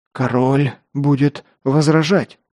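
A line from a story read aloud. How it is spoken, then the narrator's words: Lord forcing words out. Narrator (Russian): выдавил наконец лорд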